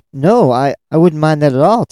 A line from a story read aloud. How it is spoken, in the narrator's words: Tamay stammered in confusion